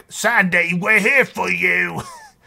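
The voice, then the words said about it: Poor imitation of a character's accent. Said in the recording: “Apologize for my terrible accent impersonation”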